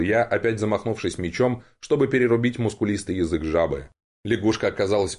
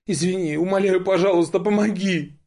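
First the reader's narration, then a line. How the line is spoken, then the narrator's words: Whimpering plea. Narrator (Russian): захныкала Виконта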